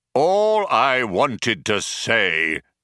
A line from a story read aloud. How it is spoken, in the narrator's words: bellowed the computer